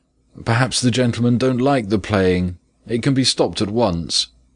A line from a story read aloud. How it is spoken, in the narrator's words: the father called out